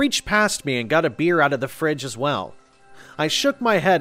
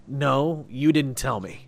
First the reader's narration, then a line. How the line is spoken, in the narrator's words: I sighed